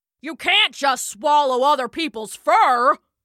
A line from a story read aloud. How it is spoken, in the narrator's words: bellowed Brunfelja